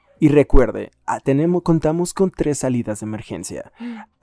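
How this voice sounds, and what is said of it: Announcer voice in neutral Spanish. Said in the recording (Spanish): “voz de locutor ... en español ... neutro”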